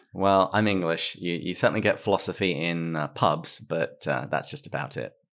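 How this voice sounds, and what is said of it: English accent with Australian-American tinge. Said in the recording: “the rather Australian accent if you're English ... she tells me that I'm sounding more American”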